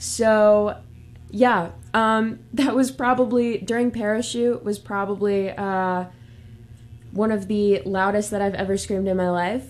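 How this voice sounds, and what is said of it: Worn-out, strained voice. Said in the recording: “if you hear it in my voice, it's a little bit dead. I did scream a lot.”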